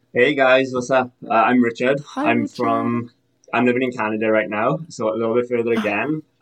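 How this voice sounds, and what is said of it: Welsh accent. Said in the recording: “Is this an accent? ... I'm originally from Wales.”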